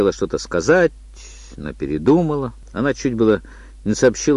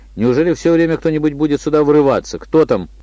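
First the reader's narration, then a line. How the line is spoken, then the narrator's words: Irritated shout. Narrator (Russian): раздраженно крикнул Мел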